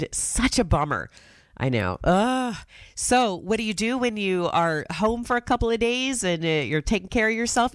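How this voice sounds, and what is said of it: Congested, sick-sounding voice. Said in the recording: “if you could maybe tell by my voice, I caught a cold”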